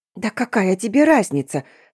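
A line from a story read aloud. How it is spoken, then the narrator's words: Hissed. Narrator (Russian): зашипела я на него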